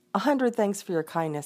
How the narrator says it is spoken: he said

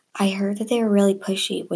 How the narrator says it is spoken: whispered

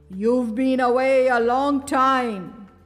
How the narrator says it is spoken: growled the savage beast

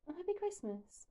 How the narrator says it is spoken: echoes quietly

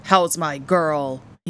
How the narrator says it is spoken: he boomed

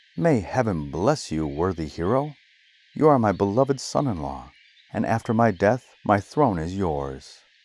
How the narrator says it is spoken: The king exclaiming

